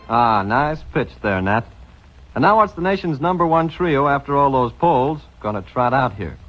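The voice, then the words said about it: Mid-Atlantic accent. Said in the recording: “The mid-Atlantic accent. The mid-Atlantic accent.”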